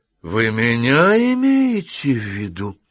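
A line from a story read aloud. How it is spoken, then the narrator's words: Bristling, menacing. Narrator (Russian): грозно спросил сразу нахохлившийся Гаунт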